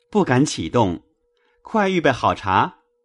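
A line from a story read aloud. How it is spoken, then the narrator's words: Hurried, smiling. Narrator (Chinese): 宝玉忙迎出来，笑说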